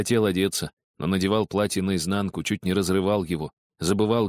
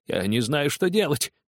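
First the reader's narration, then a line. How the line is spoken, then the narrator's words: Crying out, laughing and weeping. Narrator (Russian): вскричал Скрудж, смеясь и плача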